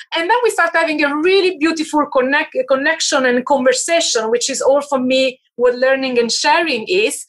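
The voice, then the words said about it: Non-American accented English. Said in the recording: “you can hear my accent. My accent is not American proof.”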